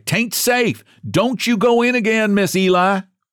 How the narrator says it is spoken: they cried

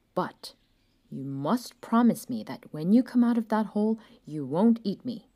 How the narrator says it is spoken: the man said sternly

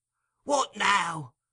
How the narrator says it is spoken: cried the Jew impatiently

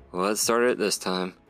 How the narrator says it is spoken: Ryan sighed and asked

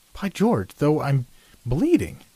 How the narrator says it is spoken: he exclaimed

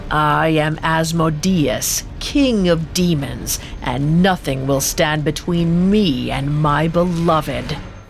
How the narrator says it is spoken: He growled

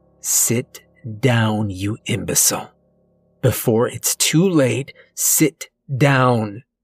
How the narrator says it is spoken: She hisses

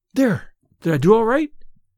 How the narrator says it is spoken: asked eagerly

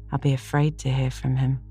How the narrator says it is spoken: sighed Anne

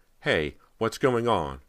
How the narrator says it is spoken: Rob cried

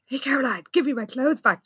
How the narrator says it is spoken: Jessica hissed

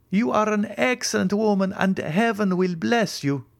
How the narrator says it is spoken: cried I

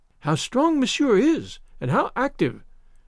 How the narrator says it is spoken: cried

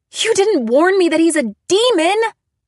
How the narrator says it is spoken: I screamed

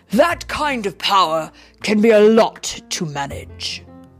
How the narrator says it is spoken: Thor said gravely

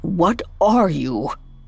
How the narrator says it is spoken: croaked Scrooge, finally finding his voice

